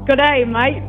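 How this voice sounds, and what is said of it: Pretty good Australian accent. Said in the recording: “your best Australian accent ... That was actually pretty good.”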